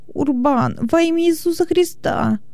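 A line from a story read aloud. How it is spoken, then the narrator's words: Whimpering plea. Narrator (Russian): Хилон заскулил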